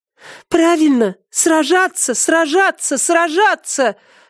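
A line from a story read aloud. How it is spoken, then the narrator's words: Girl shouting. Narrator (Russian): закричала девушка Саридана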